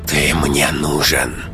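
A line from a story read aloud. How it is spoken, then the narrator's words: Hiss. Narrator (Russian): прошипел голос Марины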